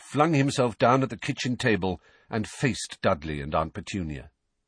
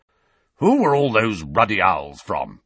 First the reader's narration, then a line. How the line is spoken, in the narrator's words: growled